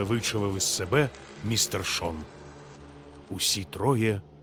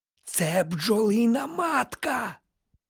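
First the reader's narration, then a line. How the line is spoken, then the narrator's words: Loud whisper. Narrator (Ukrainian): голосно прошепотів містер Відгем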